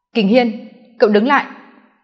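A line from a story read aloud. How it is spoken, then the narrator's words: Low angry snap. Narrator (Vietnamese): Anh nhíu chặt mày, rốt cuộc bộc phát, thấp giọng quát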